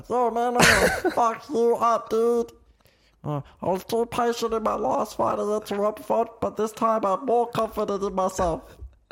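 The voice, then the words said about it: Imitates another person's voice, very high-pitched. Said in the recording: “Don't ask me how I can do that voice. ... My balls have to go into, like, my brain to get the voice that high.”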